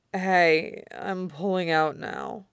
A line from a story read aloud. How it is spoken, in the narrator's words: warned, slurring his words as the exhaustion crept in